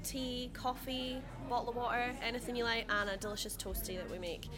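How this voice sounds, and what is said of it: Scottish accent. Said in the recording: “I love it how you say that in your Scottish accent as well.”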